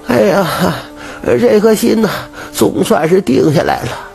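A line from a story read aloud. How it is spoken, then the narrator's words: Relieved sigh. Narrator (Chinese): 长舒了一口气……叹息道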